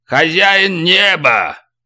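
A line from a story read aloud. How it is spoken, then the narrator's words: Roaring. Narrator (Russian): проревел Карабан Чиора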